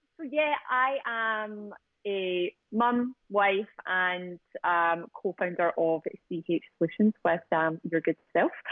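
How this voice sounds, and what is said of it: Scottish accent. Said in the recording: “I am Scottish, so I'll just give people a little bit of time to adjust the ears to my accent.”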